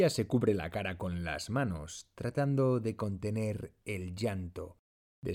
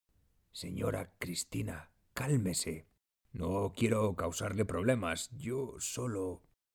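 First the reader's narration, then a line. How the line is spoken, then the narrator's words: Low voice. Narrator (Spanish): le dice en voz baja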